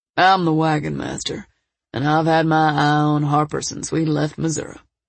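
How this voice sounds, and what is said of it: Deep drawling male character voice. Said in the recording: “Wyatt's deep drawl picked up the story.”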